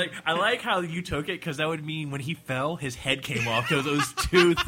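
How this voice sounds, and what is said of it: Usual voice. Nothing is said of it.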